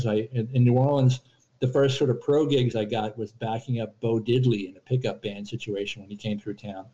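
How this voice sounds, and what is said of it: Smooth radio voice. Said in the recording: “you do have a radio voice.”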